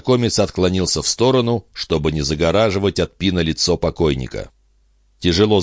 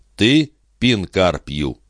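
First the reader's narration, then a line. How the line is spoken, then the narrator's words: Formal question. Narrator (Russian): Незнакомец официальным тоном спросил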